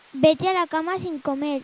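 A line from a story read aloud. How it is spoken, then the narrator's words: Shouted. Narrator (Spanish): le gritó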